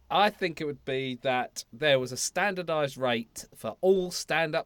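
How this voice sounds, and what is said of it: Usual voice. Nothing is said of it.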